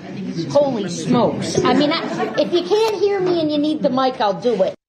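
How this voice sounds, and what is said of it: Exaggerated folksy Upper Midwest accent. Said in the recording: “Why does she sound like Tommy Boy? ... she's like Chris Farley. She's playing up ... it's like this accent that they have, and she's playing it up ... folksy”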